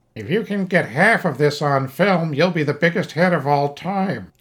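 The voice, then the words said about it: Imitates another person's voice. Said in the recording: “That's my flawless George Lucas impression.”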